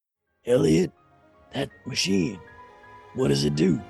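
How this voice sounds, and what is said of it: Serious guy character voice. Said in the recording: “put on my serious guy voice”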